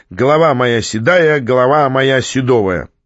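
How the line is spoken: Shouting. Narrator (Russian): закричал

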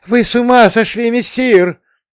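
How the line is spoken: Loud. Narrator (Russian): громко завещал он

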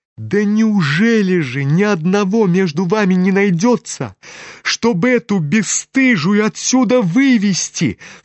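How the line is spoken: Sudden furious cry. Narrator (Russian): вскрикнула вдруг вся трепеща от гнева Варя

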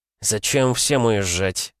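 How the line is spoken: Gloomy question. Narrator (Russian): мрачно спросил губернатор

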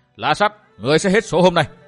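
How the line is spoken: Laughing loud shout. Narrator (Vietnamese): Phan Thao phá lên cười ha hả quát to

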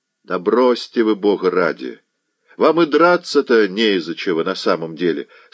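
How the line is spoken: Plain. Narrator (Russian): сказал Заглоба

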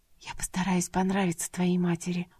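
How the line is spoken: Uncertain whisper. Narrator (Russian): прошептала Манана, не будучи уверенной в том, что у нее это получится

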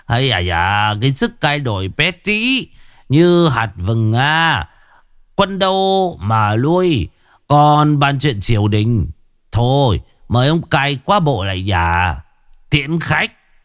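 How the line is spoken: Laughing, mocking, old man. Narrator (Vietnamese): lão Lưu Man cười lớn rồi buông lời mai mỉa

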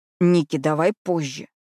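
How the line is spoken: Displeased hiss. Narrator (Russian): недовольно прошипел Джаспер

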